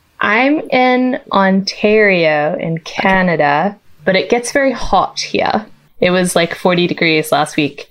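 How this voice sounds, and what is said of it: Faintly non-American accent. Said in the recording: “delightful, faintly non-American accent”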